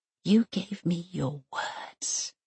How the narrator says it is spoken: she whispers

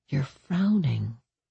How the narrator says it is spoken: Danny murmured

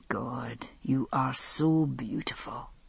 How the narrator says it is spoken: he said softly

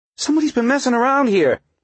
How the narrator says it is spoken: he cried

